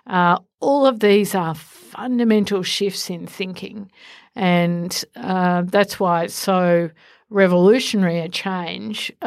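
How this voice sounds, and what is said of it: Enthusiastic voice. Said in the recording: “the enthusiasm you can hear in my voice”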